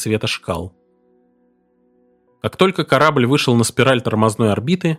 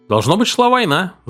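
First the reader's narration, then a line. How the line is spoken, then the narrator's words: Cheerful remark. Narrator (Russian): заметил Флеминг весело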